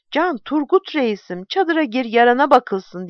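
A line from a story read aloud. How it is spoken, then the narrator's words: Shouting. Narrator (Turkish): diye bağırınca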